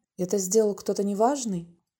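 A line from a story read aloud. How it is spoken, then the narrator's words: Very quiet. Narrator (Russian): произнес он так тихо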